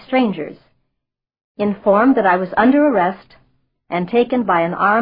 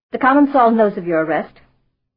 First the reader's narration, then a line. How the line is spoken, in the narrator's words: I said